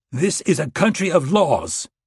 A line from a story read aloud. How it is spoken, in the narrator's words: Ferris exclaimed, obviously unable to come up with anything more original or to the point